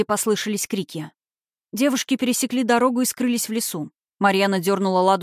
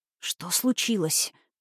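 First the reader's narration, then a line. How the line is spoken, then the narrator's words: Pained whisper. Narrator (Russian): прошептала Лада, морщась от боли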